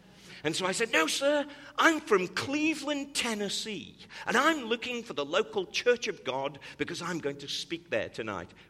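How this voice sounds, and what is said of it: British accent. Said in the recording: “He could think that my accent was British, but he didn't think people from Tennessee spoke like I spoke.”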